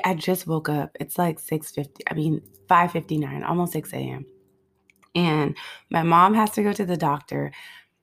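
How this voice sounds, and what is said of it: Slightly groggy voice. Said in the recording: “I sound a little groggy”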